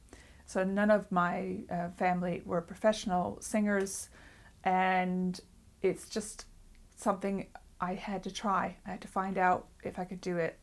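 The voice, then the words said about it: American accent. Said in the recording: “As you probably can tell from my accent, I'm not originally from England. I grew up in the United States.”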